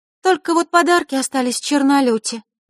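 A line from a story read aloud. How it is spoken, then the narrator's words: Sigh. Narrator (Russian): вздохнула Диана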